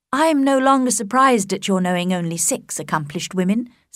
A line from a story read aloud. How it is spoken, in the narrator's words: said Elizabeth